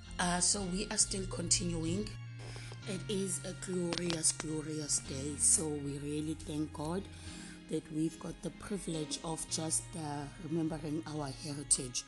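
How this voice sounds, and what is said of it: Unwell, rough-sounding voice. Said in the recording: “I'm a bit under the weather. I'm sure maybe you can hear that my voice is not sounding good”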